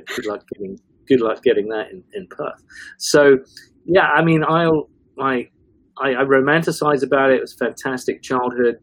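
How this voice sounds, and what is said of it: English accent with Northern vowels. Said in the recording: “I've got this English, you know, accent, which is British Forces. ... some of my vowels are like Northern ... I get called Kiwi ... I certainly don't sound like ... A New Zealander”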